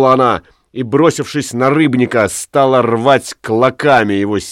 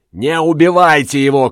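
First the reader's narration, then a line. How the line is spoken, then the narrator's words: Shouting. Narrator (Russian): кричала Тория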